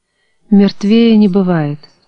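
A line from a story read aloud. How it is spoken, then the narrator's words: Sighing. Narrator (Russian): вздохнула Даша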